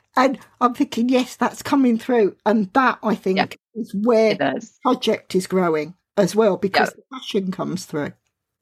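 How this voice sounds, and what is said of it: Southern English British accent. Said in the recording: “I've got a British accent. I've got a Southern England accent, which some people think it's London, but it was a bit further down.”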